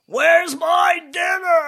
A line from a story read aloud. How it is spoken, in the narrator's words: yelling